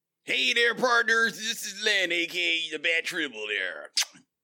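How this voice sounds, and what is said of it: Put-on Western cowboy accent. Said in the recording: “as you may have ascertained from ... accent, no, he's not having some type of fit ... getting in the spirit of Black History Month ... means Westerns”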